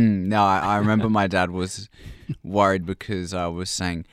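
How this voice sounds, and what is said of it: Usual voice. Nothing is said of it.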